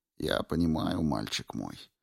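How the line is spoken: Soft gentle voice. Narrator (Russian): мягко сказал учитель

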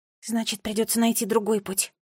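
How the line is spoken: Whispered. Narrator (Russian): прошептала Нола

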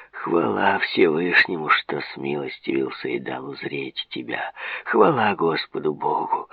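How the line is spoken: Mumbling. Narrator (Russian): забормотал Мираб

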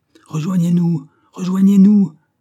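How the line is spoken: Shouting. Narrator (French): cria Banks à ceux de nos compagnons qui défendaient l'arrière de Stimhouse

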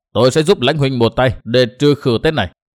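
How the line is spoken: Cold sneering laugh. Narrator (Vietnamese): Đinh Diệm Sơn cười nhạt

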